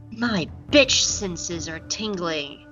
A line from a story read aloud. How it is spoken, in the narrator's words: Suddenly, Kaz stops eating and whispers